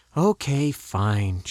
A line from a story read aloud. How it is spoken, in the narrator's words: conceded, sighing